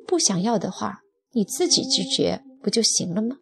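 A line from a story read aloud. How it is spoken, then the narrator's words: Cold. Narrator (Chinese): 丈夫却冷冷地说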